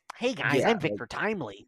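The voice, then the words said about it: Put-on stereotypical white guy voice. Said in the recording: “I'm surprised they didn't make him sound like this... sound like a white guy”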